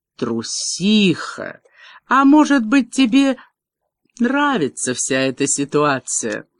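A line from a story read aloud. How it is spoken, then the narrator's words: Sighing. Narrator (Russian): Меган вздохнула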